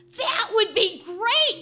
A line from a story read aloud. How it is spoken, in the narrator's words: I blurt out